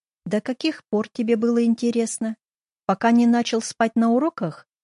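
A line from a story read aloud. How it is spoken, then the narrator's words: Trembling with suppressed fury. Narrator (Russian): Я старалась говорить спокойно, но голос дрожал от сдерживаемой ярости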